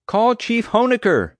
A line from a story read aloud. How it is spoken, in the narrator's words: I shouted back